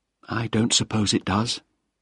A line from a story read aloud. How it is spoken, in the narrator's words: she said quietly